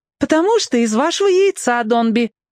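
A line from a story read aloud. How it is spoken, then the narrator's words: Cheerful explanation. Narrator (Russian): весело разъяснила Катя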